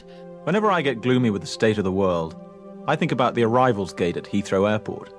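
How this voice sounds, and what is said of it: Put-on British accent. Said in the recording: “Excuse my terrible Hugh Grant ... that was actually a, a, really good British, at least by my standards. It, it, was a great British accent.”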